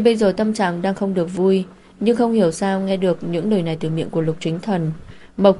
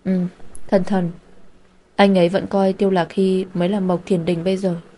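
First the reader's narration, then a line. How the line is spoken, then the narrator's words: Sad, disappointed voice. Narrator (Vietnamese): Khuôn mặt của cô có hơi thất vọng, nói với giọng buồn bã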